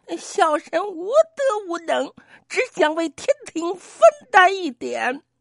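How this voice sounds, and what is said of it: Trembling, timid voice. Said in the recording (Chinese): “颤抖的声音说”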